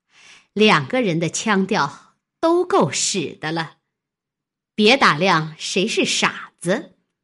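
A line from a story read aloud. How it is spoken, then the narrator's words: Sneering, cold laugh. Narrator (Chinese): 金贵冷笑道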